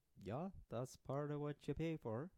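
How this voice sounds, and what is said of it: Exaggerated put-on Swedish accent. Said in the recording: “You got a nice accent there... The offensive Swedish man... Oh no, it got worse.”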